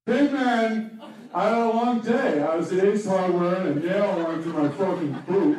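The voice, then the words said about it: Impersonation of a male friend. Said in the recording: “do an impersonation of his day”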